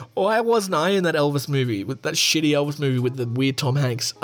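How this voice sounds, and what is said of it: Usual voice. Nothing is said of it.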